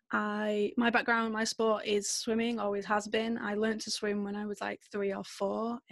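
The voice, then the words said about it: British Manchester accent. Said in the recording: “maybe you can tell from my accent a little bit, I'm from the UK. I'm from a little place called Manchester.”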